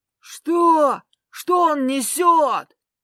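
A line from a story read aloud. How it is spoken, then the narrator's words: Yelling. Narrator (Russian): заорал Артур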